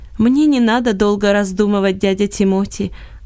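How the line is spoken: Plain. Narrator (Russian): ответил Иосиф

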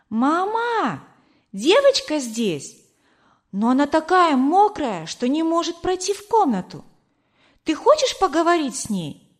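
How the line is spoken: Shout. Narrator (Russian): крикнула

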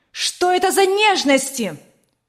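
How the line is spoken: Angry shout. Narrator (Russian): Сверкая от гнева глазами, закричала она

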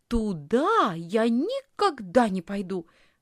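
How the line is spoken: Exclamation. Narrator (Russian): воскликнула Лисхин

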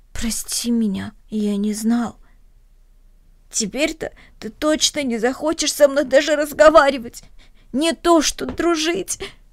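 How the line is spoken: Sobbing. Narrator (Russian): всхлипнул Денис

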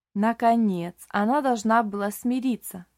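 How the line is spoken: Plain. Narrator (Russian): сказала Шарлотта

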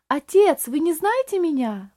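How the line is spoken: Strained emotional exclamation. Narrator (Russian): воскликнул Рейли, с трудом беря себя в руки

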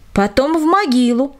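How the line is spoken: Group shouting. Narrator (Russian): закричали одни

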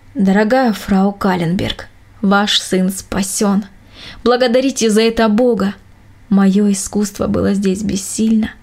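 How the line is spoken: Calm doctor. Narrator (Russian): Врач спокойно сказал

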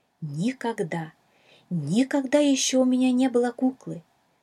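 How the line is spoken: Excited exclamation. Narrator (Russian): взволнованно воскликнула Шала

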